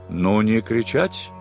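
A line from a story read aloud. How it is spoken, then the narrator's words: Stern. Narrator (Russian): строго сказал адмирал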